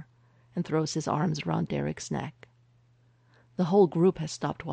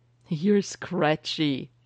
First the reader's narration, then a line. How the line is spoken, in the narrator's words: he giggles